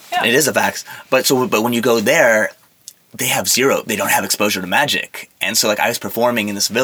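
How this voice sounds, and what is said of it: Usual voice. Nothing is said of it.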